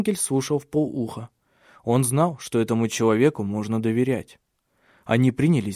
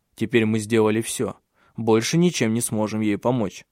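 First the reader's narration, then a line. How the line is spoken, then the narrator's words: Plain. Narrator (Russian): сказал Тенгель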